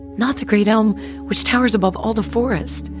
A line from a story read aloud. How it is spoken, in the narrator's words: cried the maiden